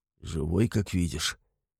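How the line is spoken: Hoarse laugh. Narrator (Russian): Сипло смеюсь я

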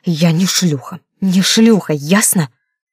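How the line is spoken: Hissed. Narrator (Russian): прошипел

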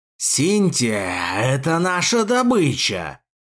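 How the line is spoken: Spirit roaring. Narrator (Russian): взревел зеленокожий дух

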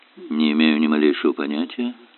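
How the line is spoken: Even, level tone. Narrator (Russian): ровным тоном заверил он

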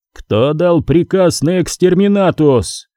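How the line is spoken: Furious roar. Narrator (Russian): яростно взревел примарх

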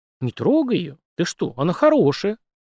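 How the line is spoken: Exclamation. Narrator (Russian): воскликнул Димка

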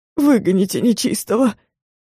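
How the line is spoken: Man pleading. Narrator (Russian): взмолился мужик

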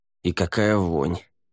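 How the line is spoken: Grumbled mutter. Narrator (Russian): буркнул Лаверн

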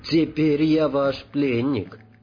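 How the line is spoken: Plain. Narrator (Russian): сказал Радик

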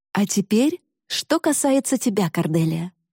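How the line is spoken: Mother, cheerful. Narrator (Russian): радостно продолжала мама

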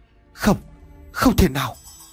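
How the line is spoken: Old man stammering. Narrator (Vietnamese): Ông Vọng nói giọng lắp bắp

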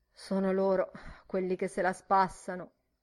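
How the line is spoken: Sad. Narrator (Italian): disse tristemente

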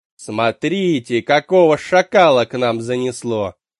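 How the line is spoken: Loud, for all to hear. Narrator (Russian): Громко так, чтобы все услышали, бросила она

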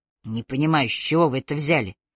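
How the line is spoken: Sullen mutter. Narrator (Russian): угрюмо пробурчал он

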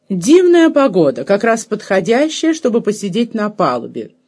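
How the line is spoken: Loud, clear, deeply sympathetic. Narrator (Russian): громко и отчетливо сообщила, в голосе ее звучало задушевнейшее сочувствие и понимание

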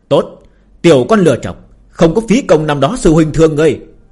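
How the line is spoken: Loud laughing cry. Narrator (Vietnamese): Phương Hành cười to kêu lên một tiếng

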